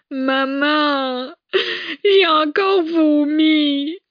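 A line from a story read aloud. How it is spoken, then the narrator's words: Sobbing lament. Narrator (French): se lamenta Philomène en sanglotant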